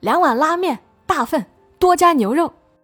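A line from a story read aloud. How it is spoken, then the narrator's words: Loud bellow. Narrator (Chinese): 段三立扯开嗓子喊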